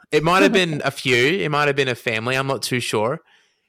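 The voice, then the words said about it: Noticeable regional accent. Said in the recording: “The accent ... Threw me for a second.”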